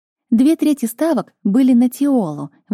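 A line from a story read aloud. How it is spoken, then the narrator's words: Female friend exclaiming. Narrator (Russian): воскликнула подруга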